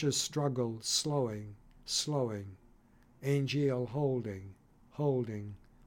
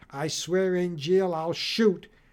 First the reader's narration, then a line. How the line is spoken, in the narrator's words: shouting a count